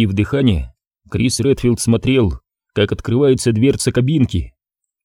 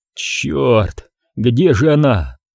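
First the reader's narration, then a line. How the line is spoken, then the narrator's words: Moan. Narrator (Russian): простонал Крис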